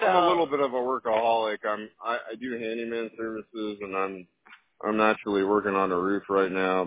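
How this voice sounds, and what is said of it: Dry, monotone delivery. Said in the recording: “you're just like kind of dry about it ... I'm as monotone as a monotone gift”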